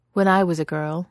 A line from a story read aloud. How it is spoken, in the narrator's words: Miss Giddy says